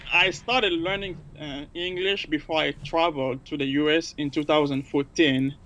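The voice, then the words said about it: Non-native English accent. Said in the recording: “you can tell I'm still learning and improving, so hopefully people can hear my accent.”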